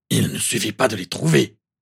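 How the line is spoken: Growled. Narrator (French): grogna Maugrey

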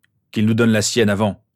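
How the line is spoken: Unappeased grumbling. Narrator (French): grogna James, pas le moins du monde apaisé par la tranquillité du directeur

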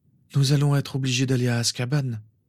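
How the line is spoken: Sighing. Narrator (French): soupira Lily

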